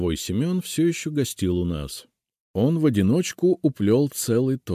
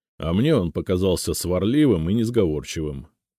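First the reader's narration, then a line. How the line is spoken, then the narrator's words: Skeptical snort. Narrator (Russian): хмыкнул Зотов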